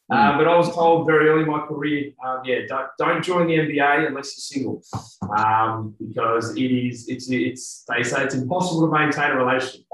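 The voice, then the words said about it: Australian accent. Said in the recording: “when we have an Australian accent”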